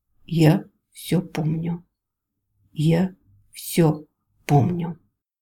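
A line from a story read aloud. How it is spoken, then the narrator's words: Slow but clear. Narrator (Russian): сказал медленно, но отчетливо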